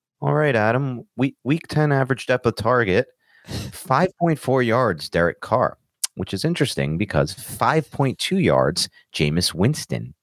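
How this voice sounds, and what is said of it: Imitates a reserved, subdued voice. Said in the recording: “my Jacob impression ... Jacob is a very reserved guy, reserved voice.”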